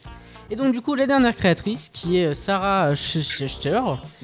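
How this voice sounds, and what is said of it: Put-on German accent. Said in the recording (French): “Il est bien mon accent allemand.”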